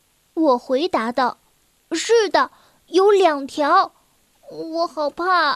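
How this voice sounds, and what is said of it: Usual voice. Nothing is said of it.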